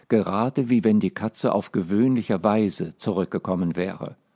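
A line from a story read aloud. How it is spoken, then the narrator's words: Very calm. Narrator (German): antwortete Alice sehr ruhig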